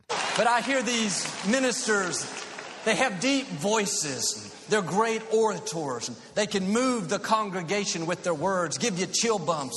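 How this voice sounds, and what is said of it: Texan twang accent. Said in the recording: “my Texas twang”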